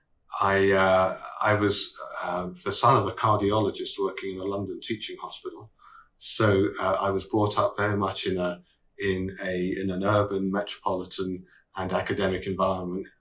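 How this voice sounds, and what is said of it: British accent. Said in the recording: “as you can tell from my accent,... I came from the UK”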